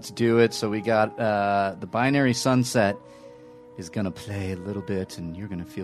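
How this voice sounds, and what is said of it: Usual voice. Nothing is said of it.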